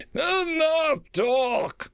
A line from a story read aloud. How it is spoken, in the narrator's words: barked the Exarch